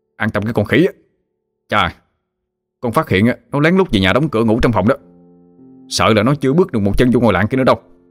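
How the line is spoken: Threatening shout. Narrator (Vietnamese): Hưng dọa nạt mà quát

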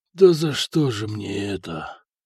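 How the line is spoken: Stunned whisper. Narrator (Russian): прошептал ротный, который с трудом осознавал произошедшее на его глазах

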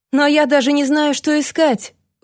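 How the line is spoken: Pleading. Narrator (Russian): взмолился сэр Эдвард

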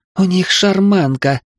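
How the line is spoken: Astonished breathless exclamation. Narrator (Russian): пораженно выдохнула сестра

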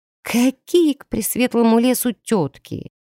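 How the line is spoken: Muffled mutter under blanket. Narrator (Russian): пробормотала, зарываясь глубже в одеяло

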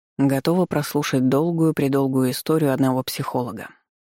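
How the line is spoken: Gloomy question. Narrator (Russian): мрачно спросил Багин

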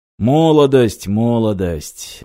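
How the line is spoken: Sigh. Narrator (Russian): вздохнул Юрий

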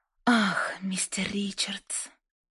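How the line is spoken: Mocking whisper. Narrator (Russian): прошептала Лайза с явной насмешкой

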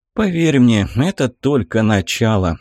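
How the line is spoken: Tired curt remark. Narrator (Russian): устало бросил командир

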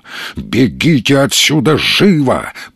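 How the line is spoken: Thundering voice. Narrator (Russian): прогремел

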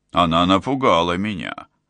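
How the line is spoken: Grumbling. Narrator (Russian): проворчал Уго

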